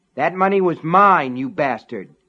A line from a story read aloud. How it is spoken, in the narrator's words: Ace shouted at Alan